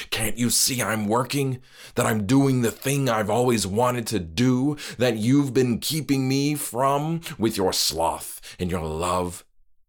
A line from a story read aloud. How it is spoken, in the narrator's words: yelled